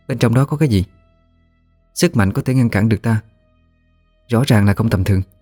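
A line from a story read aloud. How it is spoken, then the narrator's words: Soft question. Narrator (Vietnamese): Thanh khẽ hỏi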